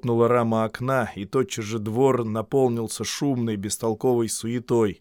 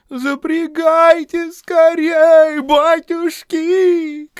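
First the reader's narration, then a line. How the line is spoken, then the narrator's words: Tearful shouting. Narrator (Russian): кричал он плачущим голосом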